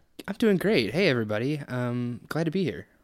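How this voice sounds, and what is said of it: Very cheerful, puppet-like voice. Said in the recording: “you sound like a really cheerful puppet”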